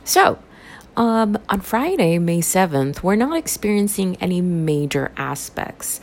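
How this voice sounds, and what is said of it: Raspy, dry-throated voice. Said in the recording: “I apologize for my raspy voice. ... my throat is just really dry.”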